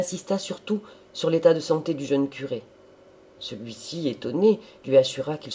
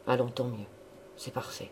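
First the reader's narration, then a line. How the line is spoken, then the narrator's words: Reassured murmur to himself. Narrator (French): il murmurait, comme se parlant à lui-même d'un ton rassuré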